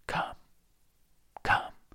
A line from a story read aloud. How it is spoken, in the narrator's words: murmured